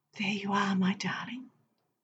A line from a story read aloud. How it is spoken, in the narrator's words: I used to whisper